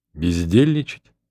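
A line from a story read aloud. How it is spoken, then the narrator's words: Calm. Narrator (Russian): отвечал спокойно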